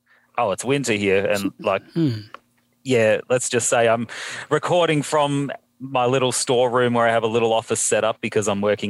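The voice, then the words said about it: Australian accent. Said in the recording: “I don't know if they could tell from the accent. ... I'm from Australia”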